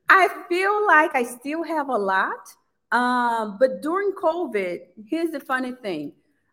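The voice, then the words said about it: Pronounced foreign accent. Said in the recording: “we don't hear your accent when you're acting ... What happens to the accent? Because it's so pronounced now.”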